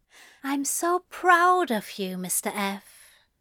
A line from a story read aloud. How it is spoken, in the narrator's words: said quietly